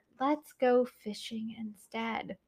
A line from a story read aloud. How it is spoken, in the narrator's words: a voice whispered in his ear